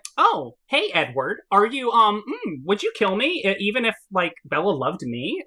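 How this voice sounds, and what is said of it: Bratty, snotty imitated character voice. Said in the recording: “the way he's speaking ... he just sounds like a snot-nosed asshole now”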